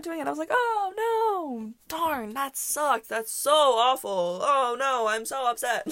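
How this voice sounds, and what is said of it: Sarcastic mock-disappointed tone. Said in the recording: “being sarcastic”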